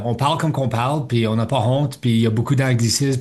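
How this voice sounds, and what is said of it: Manitoban French accent. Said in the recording (French): “Le français que moi, je parle ici au Manitoba ... Je suis fier de mon accent,”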